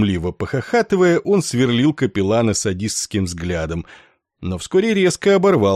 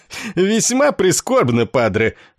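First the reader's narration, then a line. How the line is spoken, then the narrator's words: Laughing, barking loudly. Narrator (Russian): снова хохотнув, гаркнул подполковник Корн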